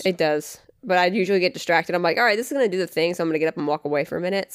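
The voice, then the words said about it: Grainy, slightly nasal voice. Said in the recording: “if my voice sounds a little odd this episode, it's because I've been coughing a fucking lung up ... if my voice sounds like more grainy ... more nasally ... than usual”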